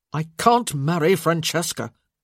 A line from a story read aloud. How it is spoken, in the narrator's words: Michael sputtered